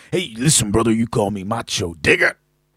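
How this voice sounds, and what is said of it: Macho Man impression. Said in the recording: “good my macho impression”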